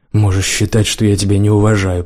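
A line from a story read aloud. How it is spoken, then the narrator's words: Hoarse rasp. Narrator (Russian): прохрипел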